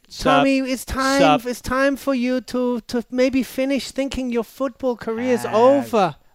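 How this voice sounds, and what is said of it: Brazilian accent impression of Gisele. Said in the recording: “Brazilian accent ... Do Giselle”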